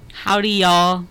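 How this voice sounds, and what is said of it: Slow put-on Southern accent. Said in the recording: “Can you do a Southern accent? ... You got to get the accent going. ... It was so fast. Run that by me again. Slow that down”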